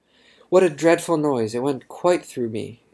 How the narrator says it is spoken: exclaimed Abbott

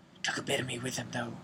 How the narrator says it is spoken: whispered Moody

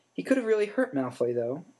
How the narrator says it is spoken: she said

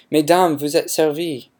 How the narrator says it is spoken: exclaiming

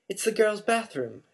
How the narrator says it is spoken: Harry gasped

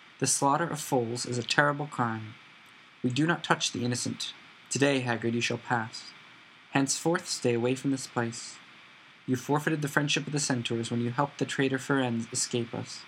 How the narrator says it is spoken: said Magorian calmly

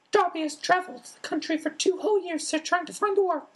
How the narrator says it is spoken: Dobby squeaked

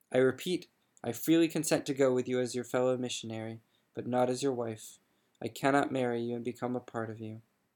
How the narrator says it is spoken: answered icily

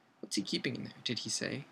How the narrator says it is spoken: said Harry

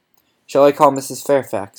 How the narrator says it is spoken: I asked

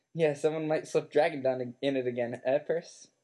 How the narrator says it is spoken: said Fred

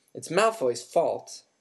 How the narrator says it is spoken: snapped Dean Thomas

